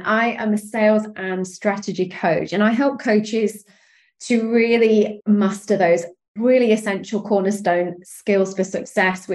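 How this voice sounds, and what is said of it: British accent. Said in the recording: “I am over in the UK. And you can probably tell from my accent”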